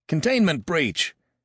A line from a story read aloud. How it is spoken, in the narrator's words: barked one of the guards